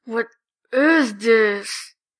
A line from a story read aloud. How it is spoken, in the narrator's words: Jack grumbles